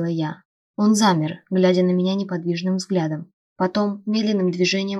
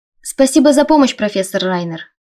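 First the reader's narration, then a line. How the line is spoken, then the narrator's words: Loud, meant to be overheard. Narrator (Russian): произнесла я достаточно громко, чтобы задерживающиеся неподалеку сокурсники услышали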